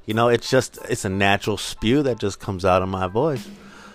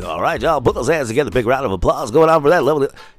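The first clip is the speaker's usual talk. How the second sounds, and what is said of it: Hyped-up club DJ announcer voice. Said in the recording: “his impersonation ... it became my DJ voice ... He put a little spunk on it and a little puke when he does the DJing part of it”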